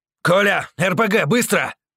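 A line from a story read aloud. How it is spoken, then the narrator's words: Barking. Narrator (Russian): Рявкнул Вова кому-то в салоне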